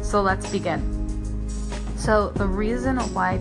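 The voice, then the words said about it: Scratchy, tired voice. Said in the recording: “it is 3 a.m., so that is why my voice is a bit scratchy”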